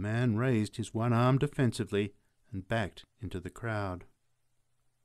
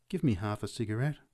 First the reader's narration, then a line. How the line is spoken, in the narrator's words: A small woman said gently